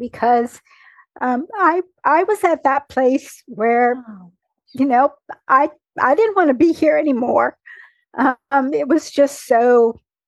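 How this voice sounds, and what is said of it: Shaking, tearful voice. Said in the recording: “my eyes are tearing up as you tell that story, and my voice is shaking”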